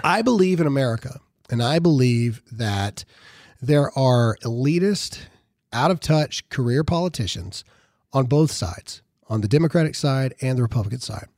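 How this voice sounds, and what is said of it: Raspy, strained voice. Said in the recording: “I apologize for my voice, it's been going out since we launched on Saturday, and I have not been able to talk all day ... my raspy voice today”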